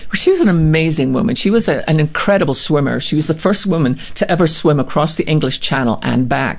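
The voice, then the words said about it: Speaks with a noticeable accent. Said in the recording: “you got the great accent”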